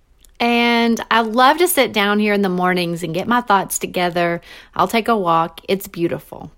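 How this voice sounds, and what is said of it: Western North Carolina accent. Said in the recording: “I live in Western North Carolina. ... you probably picked up on my accent already”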